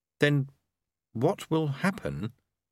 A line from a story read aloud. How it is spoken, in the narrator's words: he said slowly